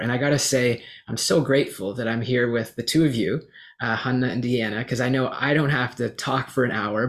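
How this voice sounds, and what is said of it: Tired, worn-out voice. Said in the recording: “my voice is really tired”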